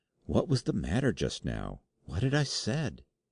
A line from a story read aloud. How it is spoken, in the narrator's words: I whispered